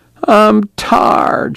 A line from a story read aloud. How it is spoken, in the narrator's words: she whined